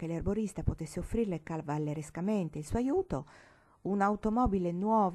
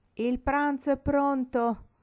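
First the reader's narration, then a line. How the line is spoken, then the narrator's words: Angry aunt shouting from inside. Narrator (Italian): gridò dall'interno l'arrabbiata zia Lili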